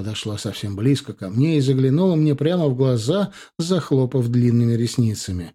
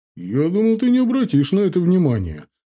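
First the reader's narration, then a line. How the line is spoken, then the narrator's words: Father chuckling. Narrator (Russian): хохотнул отец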